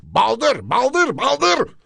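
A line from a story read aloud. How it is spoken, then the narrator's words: Shouting. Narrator (Turkish): diye bağırdı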